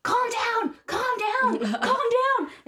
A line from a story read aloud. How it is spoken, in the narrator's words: screaming in his ear